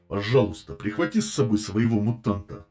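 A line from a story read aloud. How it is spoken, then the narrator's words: Wry snort. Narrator (Russian): хмыкнул маг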